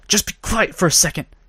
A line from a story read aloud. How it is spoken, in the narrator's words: She hissed